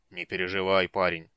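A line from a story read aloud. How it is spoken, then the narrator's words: Fatherly tone. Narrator (Russian): отеческим тоном вмешался Флинт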